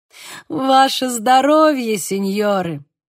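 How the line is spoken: Laughing young man. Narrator (Russian): рассмеялся молодой человек

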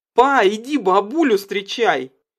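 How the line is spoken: Shout from another room. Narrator (Russian): крикнула Карина из коридора

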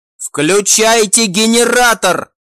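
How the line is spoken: Shouted. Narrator (Russian): прокричал глава

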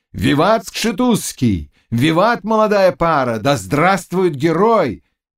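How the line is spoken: Growing crowd shouts. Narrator (Russian): кричали все громче

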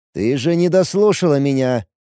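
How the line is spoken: Irritated angry officer. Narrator (Russian): как-то знакомо раздраженно произнес в лицо Мии злой офицер

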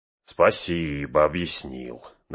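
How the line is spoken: Mocking reply. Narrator (Russian): насмешливо отозвался Мэри

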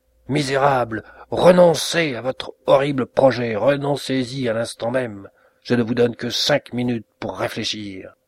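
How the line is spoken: Furious outcry. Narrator (French): sa colère se trouva montée au plus haut point, il s'écria

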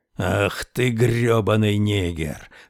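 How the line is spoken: Growling. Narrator (Russian): рычал Мортон

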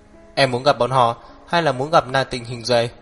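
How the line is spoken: Cold. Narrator (Vietnamese): Hắc Viêm Triệt lạnh lùng nói

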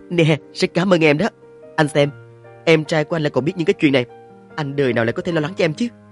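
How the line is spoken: Laughing speech. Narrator (Vietnamese): bật cười thành tiếng rồi nói

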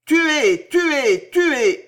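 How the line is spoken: Bells howling. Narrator (French): hurlaient les cloches

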